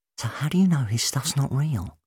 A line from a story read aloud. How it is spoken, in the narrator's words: Rose asked in a whisper